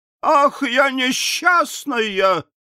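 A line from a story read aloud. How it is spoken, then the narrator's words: Wife crying out. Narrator (Russian): закричала жена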